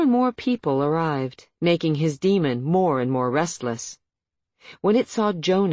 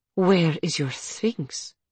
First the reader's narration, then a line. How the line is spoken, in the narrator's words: asked Aletheia, the words tightly spoken